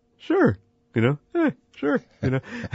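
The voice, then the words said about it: Imitates another person's voice. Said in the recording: “my Herbie impression ... it's a good one”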